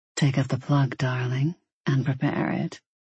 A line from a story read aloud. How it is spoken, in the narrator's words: he murmured warmly